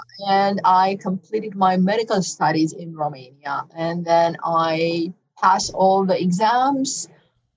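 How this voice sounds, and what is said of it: Foreign accent. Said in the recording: “I sense an interesting accent.”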